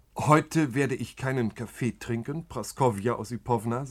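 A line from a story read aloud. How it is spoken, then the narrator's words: Plain. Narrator (German): sagte Iwan Jakowlewitsch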